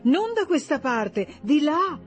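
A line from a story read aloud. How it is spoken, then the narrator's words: Exclaimed. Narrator (Italian): esclamò Rezia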